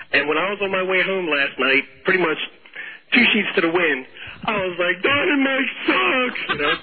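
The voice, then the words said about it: Hoarse voice. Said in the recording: “I am so hoarse right now from screaming at the top of my lungs”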